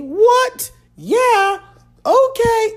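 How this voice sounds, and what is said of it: Imitates another person's voice. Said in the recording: “that was horrible... that might be the worst Little Jon uh, you know, in, impersonation ever”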